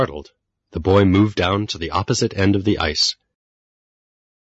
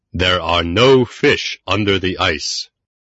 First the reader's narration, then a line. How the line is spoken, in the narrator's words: Suddenly, from the sky, a voice boomed